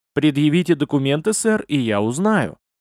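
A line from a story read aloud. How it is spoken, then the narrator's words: Calm. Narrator (Russian): спокойно ответил тот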